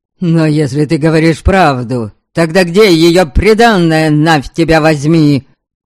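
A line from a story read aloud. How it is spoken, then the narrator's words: Enraged yelling. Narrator (Russian): Аскольд наконец не выдержал и заорал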